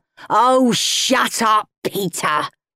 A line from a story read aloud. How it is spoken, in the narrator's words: snarled Henry